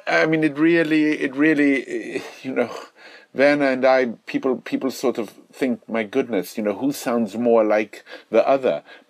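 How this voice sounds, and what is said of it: Distinctive accent. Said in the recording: “where this accent is from, I simply say to them, it's affected”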